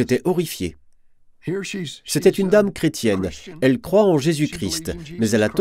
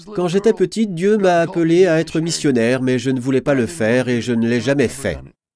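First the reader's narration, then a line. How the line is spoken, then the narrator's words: Casual offhand tone. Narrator (French): Une dame assise là a dit, d'un ton désinvolte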